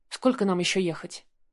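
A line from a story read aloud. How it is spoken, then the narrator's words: Plain. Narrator (Russian): спросила у водителя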